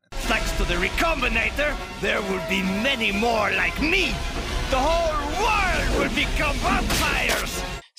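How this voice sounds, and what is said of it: Morbius with slipping accent, evil tone. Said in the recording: “His accent is kind of slips a little bit, eh? He's trying to add evil to his voice now a little bit more... he's just kind of losing the accent”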